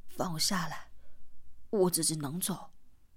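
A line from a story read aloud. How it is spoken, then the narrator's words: Breathless. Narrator (Chinese): 四娃在他的背上喘息道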